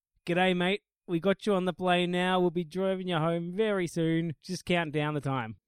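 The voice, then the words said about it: Exaggerated stereotypical Australian accent. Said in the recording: “they have the most stereotypical Australian accents ever, which they must put on”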